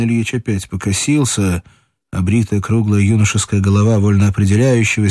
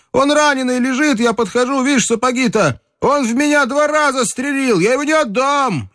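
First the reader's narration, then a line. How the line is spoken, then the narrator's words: Wilder shouting. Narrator (Russian): И он закричал пленному еще дичей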